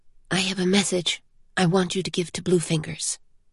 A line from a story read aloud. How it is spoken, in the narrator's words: Ciri whispered